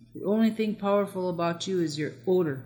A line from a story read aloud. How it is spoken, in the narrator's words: roared Matho, so incensed at Ukdomi's arrogance